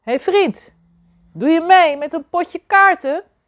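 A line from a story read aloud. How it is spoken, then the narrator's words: Giant calling louder. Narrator (Dutch): Een van de reuzen riep nu luider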